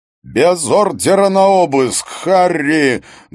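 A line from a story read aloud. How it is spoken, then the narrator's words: Very loud yelling. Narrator (Russian): Гуннар Хаген орал так громко, что Харри приходилось держать телефон на расстоянии от уха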